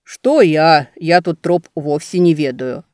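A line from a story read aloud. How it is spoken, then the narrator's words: Displeased grumble. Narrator (Russian): недовольно пробурчал боярин Мирята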